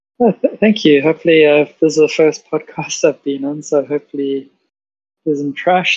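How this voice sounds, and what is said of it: Speaks with a noticeable accent. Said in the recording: “I like hearing your accent”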